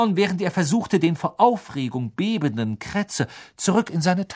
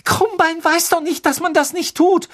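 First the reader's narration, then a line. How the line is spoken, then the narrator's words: Trembling voice. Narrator (German): sagte Hermine mit zitternder Stimme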